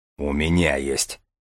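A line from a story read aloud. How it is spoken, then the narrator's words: Deep bass voice. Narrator (Russian): пробасил молчавший до сих пор Железовский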